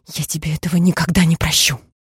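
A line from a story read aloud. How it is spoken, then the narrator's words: Hissed. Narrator (Russian): прошипеть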